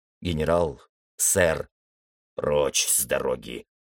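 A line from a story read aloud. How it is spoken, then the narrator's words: Growling. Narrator (Russian): прорычал генерал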